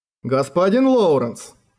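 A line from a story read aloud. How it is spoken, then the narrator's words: Weary sigh. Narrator (Russian): Услышав вопрос Лоуренса второй раз, Бартос вздохнул и произнес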